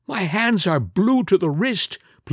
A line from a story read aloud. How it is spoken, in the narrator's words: pleaded Villon